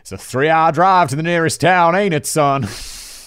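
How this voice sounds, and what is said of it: Put-on Southern American accent. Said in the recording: “in a southern voice ... my default American accent ... Not because it's a bad accent”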